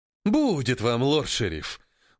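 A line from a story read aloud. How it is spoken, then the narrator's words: Mock-indignant exclamation. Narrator (Russian): воскликнул в притворном возмущении Филин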